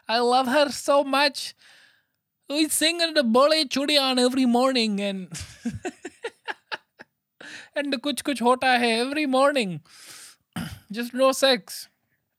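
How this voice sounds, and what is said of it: Put-on Indian accent. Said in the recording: “I lost my Indian accent there.”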